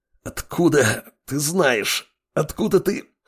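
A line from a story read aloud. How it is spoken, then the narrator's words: Hoarse, through gritted teeth. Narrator (Russian): хрипел противник, скрипя зубами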